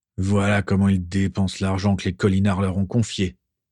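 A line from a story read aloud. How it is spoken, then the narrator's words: Grumbling. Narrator (French): grommela-t-il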